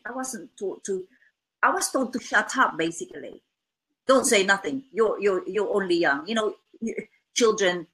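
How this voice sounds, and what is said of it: Non-native English accent. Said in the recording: “sometimes my daughter makes fun of my accent... I wasn't born in England... I speak different language, you know, two different languages... my accent is unique to me”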